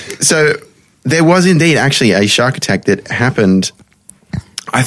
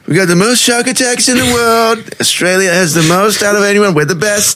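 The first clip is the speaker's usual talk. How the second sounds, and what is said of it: Donald Trump impression. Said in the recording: “do a Scaffy Trump impression”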